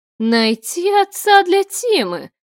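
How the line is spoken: Exclaiming. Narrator (Russian): воскликнула я

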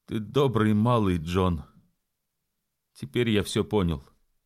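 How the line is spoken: Trembling voice. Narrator (Russian): сказал дрогнувшим голосом

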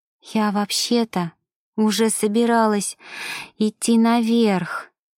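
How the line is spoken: Whisper, breaking voice. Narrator (Russian): срывающимся голосом прошептала Ева

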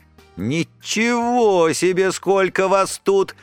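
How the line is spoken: Cheerfully surprised. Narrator (Russian): весело удивилась она

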